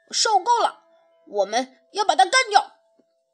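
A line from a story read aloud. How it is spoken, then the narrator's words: Shouting. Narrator (Chinese): 小胖墩儿喊道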